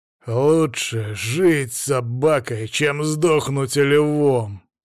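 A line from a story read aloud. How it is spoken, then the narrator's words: Growl. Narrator (Russian): прорычал Демьян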